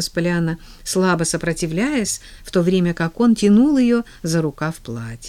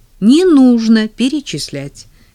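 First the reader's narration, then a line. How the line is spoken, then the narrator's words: Cheerful objection. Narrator (Russian): весело возразил Джейми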